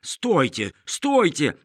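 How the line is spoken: Shouted. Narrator (Russian): кричал

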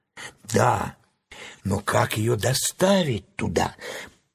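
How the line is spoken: Whisper. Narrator (Russian): прошептал Страшила

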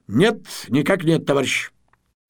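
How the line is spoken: Strict military female voice. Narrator (Russian): Тамара Семеновна строго по-военному ответила

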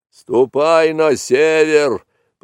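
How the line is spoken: Angry bellow. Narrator (Russian): проревел сердито буйвол

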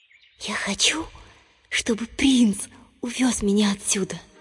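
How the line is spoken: Whisper. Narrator (Russian): принцесса прошептала

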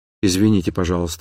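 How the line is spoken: Quiet. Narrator (Russian): сказала она тихо

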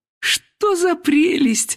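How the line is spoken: Exclaiming. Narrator (Russian): воскликнула Елена Васильевна

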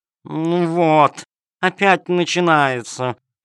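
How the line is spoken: Purring cat. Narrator (Russian): промурлыкала кошка-хромоножка

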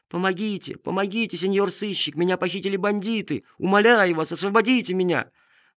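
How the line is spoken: Girl's thin high cry. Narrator (Russian): девочка тоненьким голосом кричала

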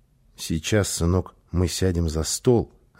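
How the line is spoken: Plain. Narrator (Russian): ответила мама

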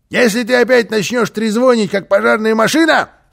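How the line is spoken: Shouted. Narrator (Russian): крикнул

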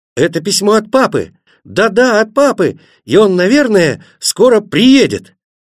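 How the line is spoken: Excited shouting. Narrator (Russian): Тогда они закричали

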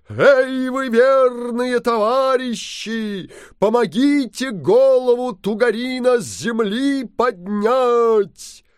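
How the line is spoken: Booming shout. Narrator (Russian): Крикнул Алеша Попович зычным голосом

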